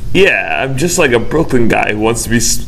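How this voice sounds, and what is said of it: Poor Brooklyn accent drifting Boston. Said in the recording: “You can't do a Brooklyn accent. I think ... it's going into Boston a little. ... Yeah, you're not good at accents.”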